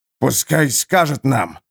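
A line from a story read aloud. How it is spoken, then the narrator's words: Hissing. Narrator (Russian): прошипел Харман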